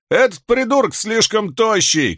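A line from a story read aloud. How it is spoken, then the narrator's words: Shouting. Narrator (Russian): крикнул другой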